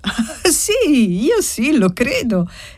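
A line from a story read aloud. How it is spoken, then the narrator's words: Lively child exclaiming. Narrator (Italian): esclamò vivacemente la bambina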